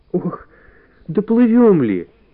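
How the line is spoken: Whimpering. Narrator (Russian): захныкала Валя

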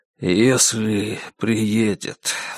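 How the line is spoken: Sigh. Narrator (Russian): вздохнул он

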